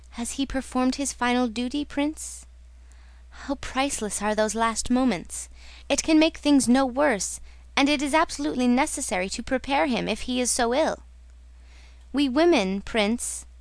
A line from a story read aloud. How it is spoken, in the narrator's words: she smiled tenderly